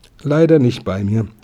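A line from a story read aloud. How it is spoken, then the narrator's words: Plain. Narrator (German): sagte der Dieb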